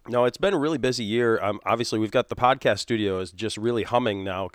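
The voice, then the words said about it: Scratchy, slightly hoarse voice. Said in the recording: “my voice is a little scratchy and weird because it's also that time of year where I've just got a little bit of a tickle in the back of my throat.”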